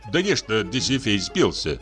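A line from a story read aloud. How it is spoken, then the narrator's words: Plain. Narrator (Russian): спросил Докукин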